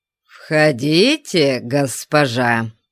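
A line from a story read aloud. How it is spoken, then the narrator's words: Grumble, heavy barbarian accent. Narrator (Russian): пробурчал Конан на герканском с ужасным варварским акцентом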